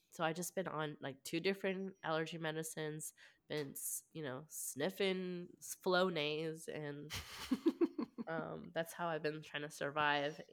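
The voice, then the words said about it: Congested, scratchy, odd-sounding voice. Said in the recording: “my voice might sound so weird ... scratchy throat, you know, my nasals just all stuffed up”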